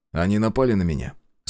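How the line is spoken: Calm statement. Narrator (Russian): спокойно констатировал я

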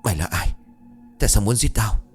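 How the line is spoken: Panting, harsh. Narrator (Vietnamese): Anh ta thở hổn hển gằn giọng

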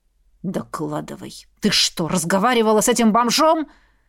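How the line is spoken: Growl. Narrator (Russian): Зарычал Хордон

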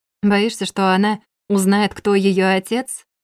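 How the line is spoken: Mocking question. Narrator (Russian): Насмешливо прозвучал вопрос от мадам Пелесей

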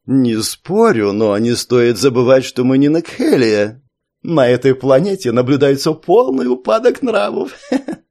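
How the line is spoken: Giggling reply. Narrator (Russian): ответил его товарищ и хихикнул

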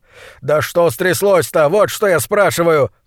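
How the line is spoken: Roar. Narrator (Russian): взревел он

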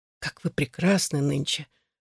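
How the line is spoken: Breathy, exhaled. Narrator (Russian): выдохнул он

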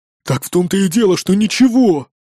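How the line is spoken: Angry grumble. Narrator (Russian): буркнул зло невидимый мне человек

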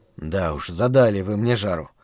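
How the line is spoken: Mild grumble, not irritated. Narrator (Russian): проворчал я, не испытывая, впрочем, никакого раздражения

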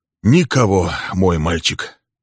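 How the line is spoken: Sighing. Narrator (Russian): вздохнул отец

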